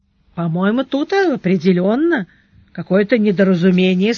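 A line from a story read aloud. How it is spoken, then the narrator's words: Soft. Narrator (Russian): сказал Сварог мягко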